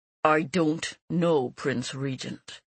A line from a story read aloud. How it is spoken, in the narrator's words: he said through gritted teeth